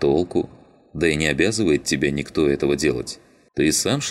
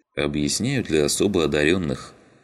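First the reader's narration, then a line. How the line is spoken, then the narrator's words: Sighing. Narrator (Russian): вздохнул Щербатый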